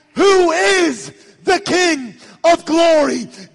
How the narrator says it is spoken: those upon the wall shouted back

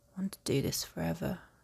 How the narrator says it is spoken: mutters against her skin

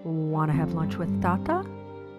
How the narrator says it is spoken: he asked me

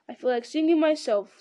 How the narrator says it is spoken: laughed Frodo

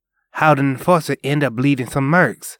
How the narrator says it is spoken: Marco asked

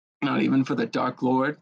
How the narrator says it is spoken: Potter murmured

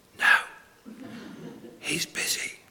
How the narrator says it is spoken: whispered the child

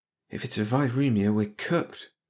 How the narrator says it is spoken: Stone whispered

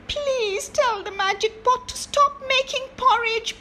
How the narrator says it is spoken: begged her mother

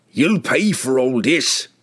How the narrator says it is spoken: it spat

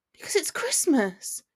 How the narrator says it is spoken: she sighed, her eyes forlorn

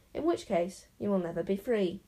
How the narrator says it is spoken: said the enchanter grimly

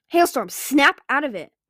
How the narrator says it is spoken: Winter barked

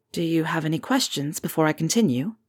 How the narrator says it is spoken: Harry asked quietly

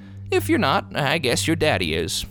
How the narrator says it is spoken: admitted the clerk, hesitantly

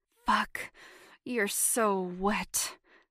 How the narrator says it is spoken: he hissed

